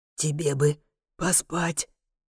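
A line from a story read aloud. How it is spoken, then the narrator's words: Barely audible whisper. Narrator (Russian): советует он шепотом, так тихо, что мне приходится угадывать смысл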